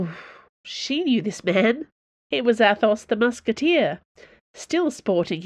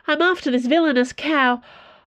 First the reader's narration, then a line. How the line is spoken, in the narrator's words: said breathlessly